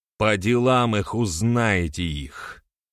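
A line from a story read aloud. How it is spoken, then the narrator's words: Through gritted teeth. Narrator (Russian): процедил Берамир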